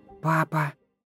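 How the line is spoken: Whisper. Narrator (Russian): прошептал Тим

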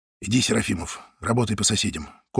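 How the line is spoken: Short whisper. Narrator (Russian): коротко шепнул ему Зайцев

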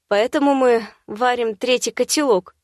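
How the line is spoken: Snort, calming down. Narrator (Russian): хмыкнула, успокаиваясь

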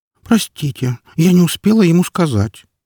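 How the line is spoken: Upset sigh, little fox. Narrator (Russian): расстроенно вздохнула лисичка

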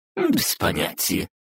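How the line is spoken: Haughty snort. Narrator (Russian): высокомерно фыркнула Бранхель

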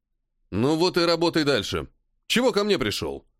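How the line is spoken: Irritated question. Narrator (Russian): Раздраженно спросил полковник

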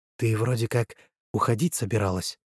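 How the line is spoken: Whisper. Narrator (Russian): прошептала Района

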